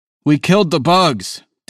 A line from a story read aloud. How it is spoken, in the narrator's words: Danny yells